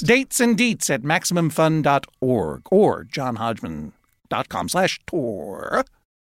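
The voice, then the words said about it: Announcer voice. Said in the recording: “That's my new announcer voice.”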